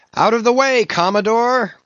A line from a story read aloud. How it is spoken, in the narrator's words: cried one